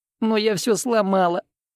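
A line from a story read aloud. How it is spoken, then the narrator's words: Sobbing woman. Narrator (Russian): закончила она, всхлипывая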